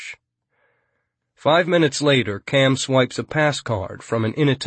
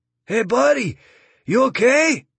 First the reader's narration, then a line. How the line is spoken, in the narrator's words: yells some tourist